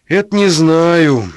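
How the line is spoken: Tired wounded man. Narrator (Russian): устало ответил раненый

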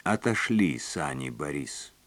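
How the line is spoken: Very calm. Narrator (Russian): сказала она очень спокойно

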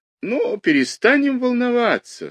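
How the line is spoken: Sweet, smiling doctor's voice. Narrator (Russian): сказал сладким голосом Мамиков, ее домашний доктор … улыбаясь так же сладко

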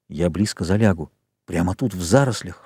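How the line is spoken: Whispered. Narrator (Russian): шепнул он

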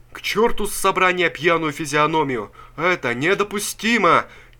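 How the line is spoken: Crowd shouting. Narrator (Russian): кричала рабочая масса

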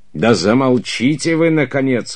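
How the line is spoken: Roaring. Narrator (Russian): взревел герцог

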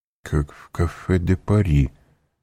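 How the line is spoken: Muttered. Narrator (Russian): пробормотал Данглар

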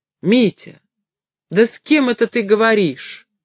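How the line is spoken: Shouting. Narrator (Russian): крикнула

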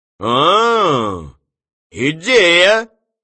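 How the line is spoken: Exclaimed. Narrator (Russian): воскликнул Клетчатый

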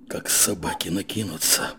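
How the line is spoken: Whispered. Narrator (Russian): шепотом сказал снабженец

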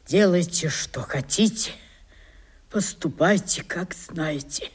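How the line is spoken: Sad and quiet. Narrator (Russian): промолвил он грустным и тихим голосом

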